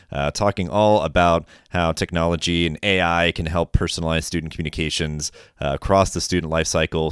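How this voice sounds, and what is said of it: Deeper, raspy voice. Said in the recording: “my voice is a little bit deeper and kind of raspy, just coming off a little bit of a sore throat”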